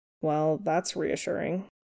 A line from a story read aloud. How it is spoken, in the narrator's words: Stiles said flatly